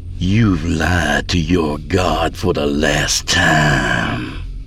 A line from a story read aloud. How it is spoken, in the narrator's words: she snarled